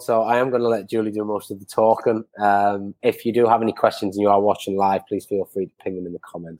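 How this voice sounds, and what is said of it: Croaky, hoarse voice. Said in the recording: “I sound like a frog because I've got a cold,”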